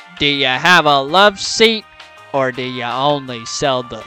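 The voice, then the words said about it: Imitates a western film star's voice. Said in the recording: “what accent are we gonna do? ... John Wayne. ... he was an action star, western star in the '50s.”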